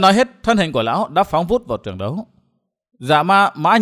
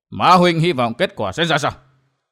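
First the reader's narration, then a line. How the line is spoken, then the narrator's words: Cold. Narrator (Vietnamese): Ma Huyết Vương lạnh lùng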